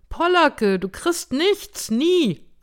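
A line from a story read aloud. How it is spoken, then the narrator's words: Calling out. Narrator (German): rief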